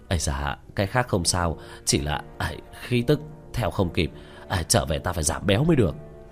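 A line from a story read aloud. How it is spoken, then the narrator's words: Breathless panting speech. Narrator (Vietnamese): Tứ Bảo miệng đã thở hổn hển nói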